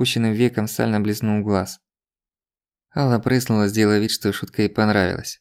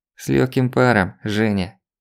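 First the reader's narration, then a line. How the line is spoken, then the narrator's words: Through gritted teeth. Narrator (Russian): процедил он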